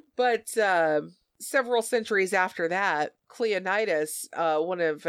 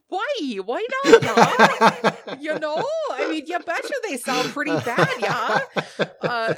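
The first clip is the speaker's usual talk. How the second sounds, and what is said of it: Put-on Minnesotan accent. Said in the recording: “Is everyone from the early days Minnesotan? ... I love that accent.”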